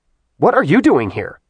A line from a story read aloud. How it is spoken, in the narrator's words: Artemis snapped